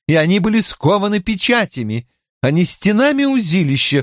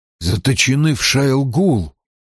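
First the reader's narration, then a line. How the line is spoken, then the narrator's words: Wistful whisper. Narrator (Russian): прошептал Перин, мечтая верить в это как прежде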